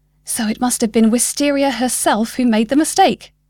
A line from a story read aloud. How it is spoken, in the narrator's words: blurted, so excited